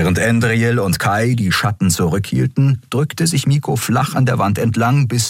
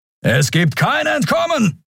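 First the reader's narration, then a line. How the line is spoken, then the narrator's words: Thundering from afar. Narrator (German): donnerte ein narbengesichtiger Mensch am anderen Ende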